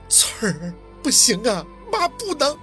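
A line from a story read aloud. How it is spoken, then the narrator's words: Crying. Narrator (Chinese): 一向刚强的凤年居然也哭了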